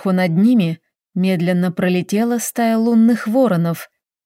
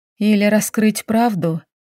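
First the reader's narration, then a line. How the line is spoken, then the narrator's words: Soft. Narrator (Russian): мягко сказала она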